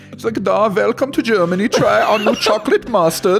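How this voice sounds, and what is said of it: Bad put-on German accent. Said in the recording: “That was the worst German accent ever.”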